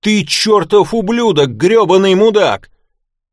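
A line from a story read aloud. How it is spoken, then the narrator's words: Yelling. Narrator (Russian): Шерон уже высунулась в окно и заорала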